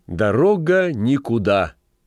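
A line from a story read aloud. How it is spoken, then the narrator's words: Loud. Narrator (Russian): громко произнесла Рой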